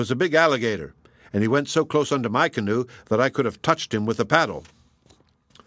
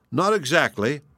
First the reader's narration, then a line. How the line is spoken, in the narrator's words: laughed Sumner, who, after a slight start, had quickly regained his composure